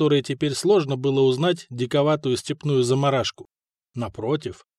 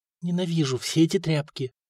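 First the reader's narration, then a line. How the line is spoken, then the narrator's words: Barely audible whisper. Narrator (Russian): шепнула она едва слышно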